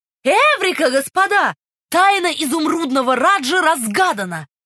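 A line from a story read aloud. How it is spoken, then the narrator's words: Shout. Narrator (Russian): Свит Чайлд крикнул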